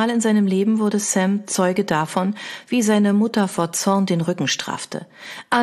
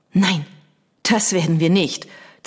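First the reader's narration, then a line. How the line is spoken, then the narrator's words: Hiss. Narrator (German): zischte sie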